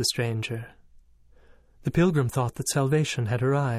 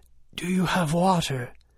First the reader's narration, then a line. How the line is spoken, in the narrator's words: gasped